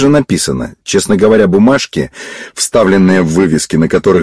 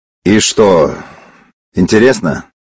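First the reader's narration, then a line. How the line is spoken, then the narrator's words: Knowing tone. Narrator (Russian): понимающим голосом сказал Славик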